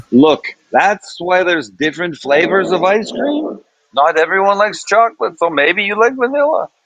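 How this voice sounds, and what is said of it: Put-on Jewish accent. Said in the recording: “She didn't have a Jewish accent, but I'm going to give her one because it's funnier.”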